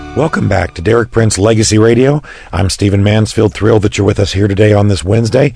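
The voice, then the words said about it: Raspy, strained voice. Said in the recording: “I apologize for my raspy voice, but been speaking a lot and doing a lot of media”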